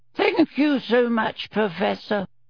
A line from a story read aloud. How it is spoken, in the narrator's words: said Professor Flitwick in his squeaky little voice